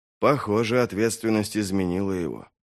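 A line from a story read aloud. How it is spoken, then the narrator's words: Muttered. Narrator (Russian): пробормотал Вест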